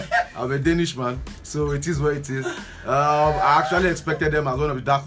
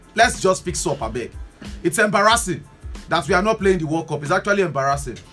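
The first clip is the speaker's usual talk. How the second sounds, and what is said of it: Raised, agitated voice. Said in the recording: “Maybe I'm raising my voice. I'm sorry about that.”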